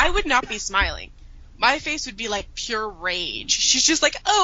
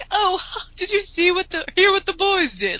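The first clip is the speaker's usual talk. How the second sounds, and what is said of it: Imitates a character's voice. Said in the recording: “Your Molly impersonation.”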